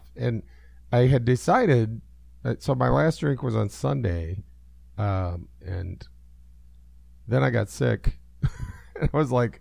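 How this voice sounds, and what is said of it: Voice sounds off, sick. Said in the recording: “my voice is off”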